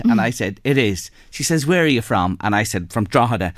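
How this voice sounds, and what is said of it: Irish accent. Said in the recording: “That's an Irish accent.”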